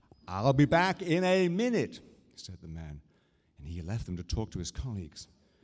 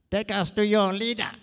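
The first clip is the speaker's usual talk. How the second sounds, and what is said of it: Put-on alien voice. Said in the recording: “in his best alien from outer space accent”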